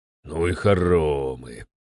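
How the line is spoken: Grumbling. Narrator (Russian): проворчал Семенов

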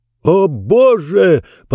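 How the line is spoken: Shout. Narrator (Russian): закричал Джонс

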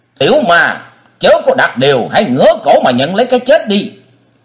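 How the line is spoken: Furious roaring shout. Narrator (Vietnamese): Nhiệt Nhĩ Hầu không dằn được nữa, hét như hổ báo

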